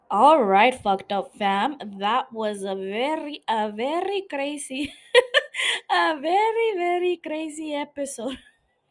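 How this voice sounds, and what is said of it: Put-on accent. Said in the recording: “I don't know why I'm doing that accent.”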